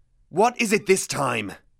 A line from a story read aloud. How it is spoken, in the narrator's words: He snarled